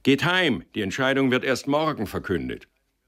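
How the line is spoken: Monk calling loudly. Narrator (German): Ein dienender Bruder erschien im Hof und rief laut

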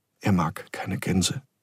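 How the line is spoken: Plain, girl. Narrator (German): sagte das Mädchen

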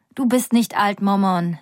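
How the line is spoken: Plain. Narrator (German): sagt Nika

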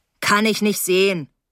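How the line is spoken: Calling from the dark. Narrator (German): rief er aus dem Dunkeln

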